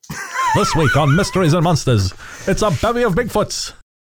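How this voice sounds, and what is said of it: Transatlantic old-timey newsman voice. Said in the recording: “Now it's got that transatlantic thing. You sound like an old-timey newsman.”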